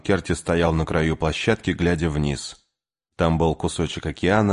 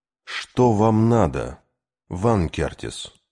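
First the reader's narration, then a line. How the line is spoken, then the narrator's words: Tired question. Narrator (Russian): устало спросил Кей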